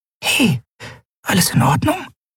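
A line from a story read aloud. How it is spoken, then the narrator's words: Whispered. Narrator (German): flüsterte sie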